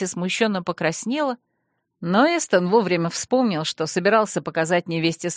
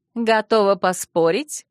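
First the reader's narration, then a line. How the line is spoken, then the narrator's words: Sudden laugh. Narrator (Russian): засмеялась вдруг Альми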